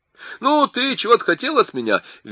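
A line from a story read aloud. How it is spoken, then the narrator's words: Cheerful question. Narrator (Russian): весело спросил Винсток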